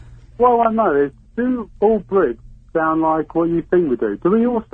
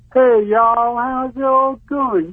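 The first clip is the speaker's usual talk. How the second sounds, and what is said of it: Exaggerated dumb-sounding American accent. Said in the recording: “Can you do an American accent? ... put on your really, I'm a dumb ass voice. Put on your dumb ass voice.”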